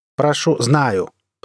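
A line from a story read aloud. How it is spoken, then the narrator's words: Angry interruption. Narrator (Russian): прервал я Теда злобно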